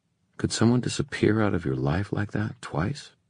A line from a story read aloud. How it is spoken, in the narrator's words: She sighed, singing softly